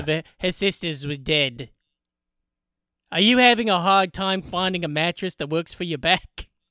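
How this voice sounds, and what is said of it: Flat monotone Australian-accented voice. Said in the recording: “Australian dude with like a very monotone voice”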